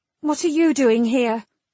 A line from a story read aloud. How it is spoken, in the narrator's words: she snapped